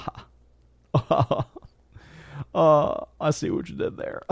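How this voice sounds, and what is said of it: Put-on unidentified accent. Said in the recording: “I don't know what accent I just did.”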